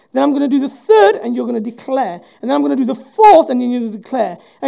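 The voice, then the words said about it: Voice rising higher with intensity. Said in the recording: “my voice was getting higher and higher... more intensity”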